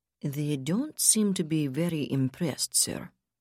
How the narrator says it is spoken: George Auerbach observed quietly

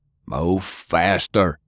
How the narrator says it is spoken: Sullivan bellowed to nobody in particular

